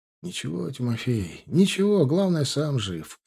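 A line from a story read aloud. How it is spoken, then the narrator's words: Quiet. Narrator (Russian): проговорил тихо поручик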